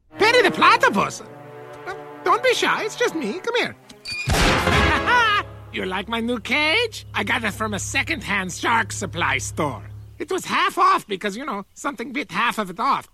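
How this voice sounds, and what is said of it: Caricatured German accent. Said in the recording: “he speaks with a caricature of a German accent”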